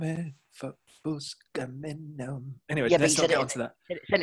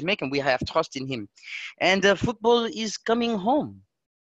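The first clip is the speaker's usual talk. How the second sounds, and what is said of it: Put-on French accent. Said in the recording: “Said it in a French accent”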